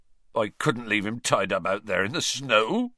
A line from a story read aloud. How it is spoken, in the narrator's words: choked Hagrid